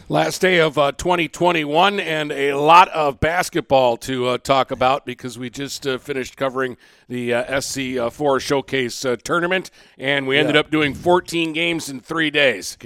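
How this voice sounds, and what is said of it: Raspy, hoarse voice. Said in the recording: “Can you tell in our voices? They're a little raspy. ... I've been fighting a sinus thing now for 2 weeks.”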